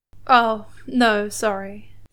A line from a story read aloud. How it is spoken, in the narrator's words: Steed chuckled